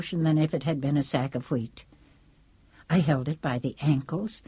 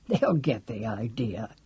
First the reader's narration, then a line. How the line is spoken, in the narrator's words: he muttered